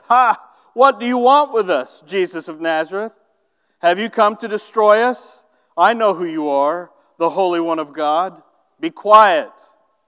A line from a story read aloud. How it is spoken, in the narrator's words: Jesus said sternly